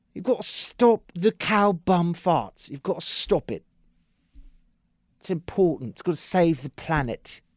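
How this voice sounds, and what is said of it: Imitates a film character's accent. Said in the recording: “I've started to switch over into Aldous Snow accent from, what's that, Forgetting Sarah Marshall?”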